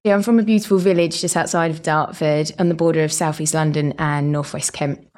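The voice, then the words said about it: British Essex-London hybrid accent. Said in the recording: “You have a British accent ... this dulcet tones of hybrid Estrian accent”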